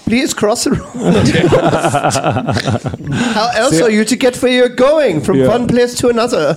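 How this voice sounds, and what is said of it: Put-on foreign accent, quite convincing. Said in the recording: “It's a good accent. ... Very good.”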